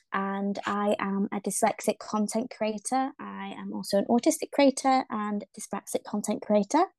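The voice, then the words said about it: Northern English accent. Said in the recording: “my accent might sound a little bit funny because it's actually from the north of England”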